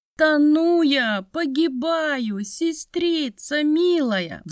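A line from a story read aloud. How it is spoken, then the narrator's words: Desperate pleading. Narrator (Russian): взмолилась девица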